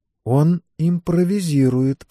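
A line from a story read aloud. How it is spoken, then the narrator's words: Whisper. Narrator (Russian): прошептала Элейн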